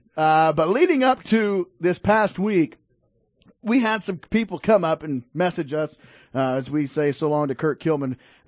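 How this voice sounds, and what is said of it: Fading, worn-out voice. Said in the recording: “my voice is already fading, dude. I don't know what's going on.”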